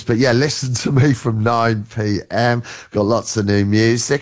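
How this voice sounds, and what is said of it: Groggy, nearly lost voice. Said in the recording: “I'm a bit groggy, nearly lost my voice.”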